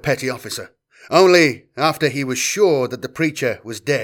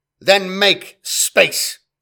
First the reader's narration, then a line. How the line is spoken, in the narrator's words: snapped Semper